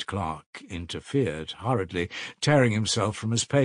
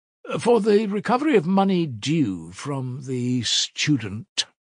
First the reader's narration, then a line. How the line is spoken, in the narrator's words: Raskolnikov faltered